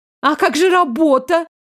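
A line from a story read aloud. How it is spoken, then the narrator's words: Offended wail. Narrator (Russian): обиженно взвыла Шэрон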